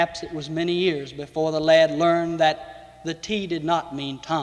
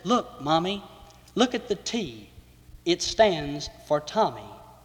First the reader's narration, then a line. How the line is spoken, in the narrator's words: Whispering said